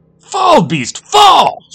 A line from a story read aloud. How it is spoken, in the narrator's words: shouted the boy